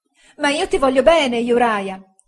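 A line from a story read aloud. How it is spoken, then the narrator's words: Woman exclaiming. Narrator (Italian): esclamò la signora Heep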